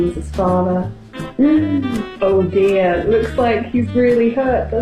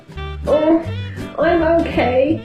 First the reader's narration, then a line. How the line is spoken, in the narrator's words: groaned Beans